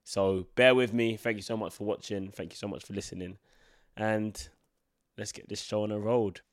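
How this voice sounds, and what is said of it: Congested, blocked-nose voice from cold. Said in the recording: “I've got a very bad cold and my voice is weird. My nose is blocked.”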